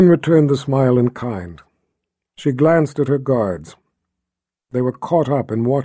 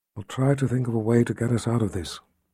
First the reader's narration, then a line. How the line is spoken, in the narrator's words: whispered